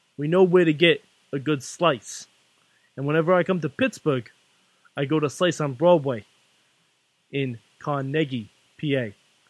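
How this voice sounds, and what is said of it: New York accent. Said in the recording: “I'm going to do this with my accent ... you know New Yorkers”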